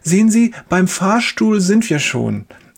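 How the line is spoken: Cheerful. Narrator (German): sagt die Schwester fröhlich

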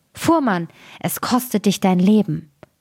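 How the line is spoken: Sparrow calling from outside. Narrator (German): Der Sperling aber saß draußen vor dem Fenster und rief

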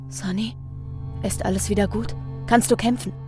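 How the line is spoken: Very quiet whisper. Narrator (German): Ganz leise wispert der Herrscher zur Mutter

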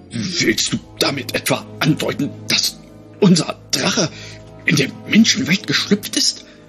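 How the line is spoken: Breathy voice trembling with horror. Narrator (German): hauchte der Drachenhüter mit vor Entsetzen bebender Stimme

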